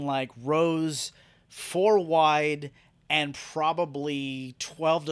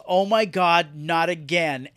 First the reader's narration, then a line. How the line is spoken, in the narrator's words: She screams and yells